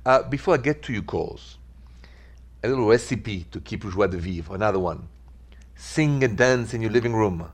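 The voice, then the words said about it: Thick French accent. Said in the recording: “accent is French ... my thick French accent”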